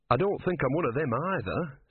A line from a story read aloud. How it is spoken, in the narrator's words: said Brother